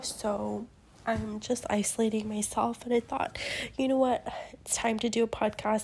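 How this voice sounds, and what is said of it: Sick, unwell-sounding voice. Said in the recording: “I sound so awful right now because I think I'm sick”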